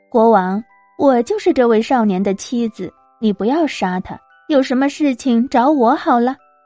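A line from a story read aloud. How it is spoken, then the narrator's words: Smiling. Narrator (Chinese): 他笑着对国王说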